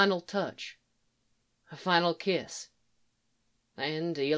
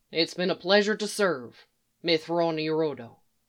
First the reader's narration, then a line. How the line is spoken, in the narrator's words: Eli said